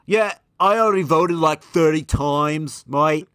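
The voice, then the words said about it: British accent impression. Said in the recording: “Great impression ... You're becoming more British ... Gotta bring it back with the mate.”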